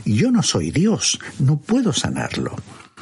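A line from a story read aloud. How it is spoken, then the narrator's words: Exclaimed. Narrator (Spanish): se exclamó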